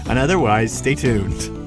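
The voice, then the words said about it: Old-fashioned TV announcer voice. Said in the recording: “I sound like an old TV announcer.”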